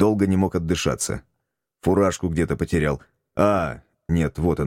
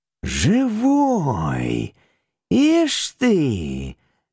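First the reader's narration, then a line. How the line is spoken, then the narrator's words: Puzzled drawl. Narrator (Russian): недоуменно протянул трактирщик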